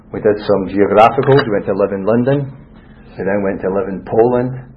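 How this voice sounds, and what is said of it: Scottish accent. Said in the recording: “The Scottish accent ... You're from Scotland”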